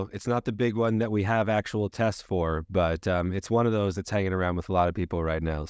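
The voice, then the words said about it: Sick-sounding voice. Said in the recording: “my voice sounds ... this will be my new podcast persona with the sick voice”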